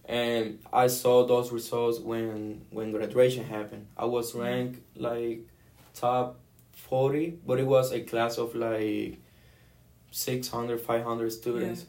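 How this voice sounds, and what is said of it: Puerto Rican accent. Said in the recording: “the Puerto Rican kid ... this guy with the accent”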